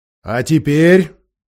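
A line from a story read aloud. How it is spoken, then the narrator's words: Much louder, growling. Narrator (Russian): произнес Аслан гораздо громче, и в голосе его слышалось рычание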